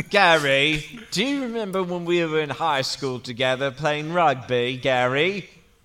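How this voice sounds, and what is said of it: Deliberately bad British accent. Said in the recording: “What is that voice? ... my incredibly bad British accent for fun”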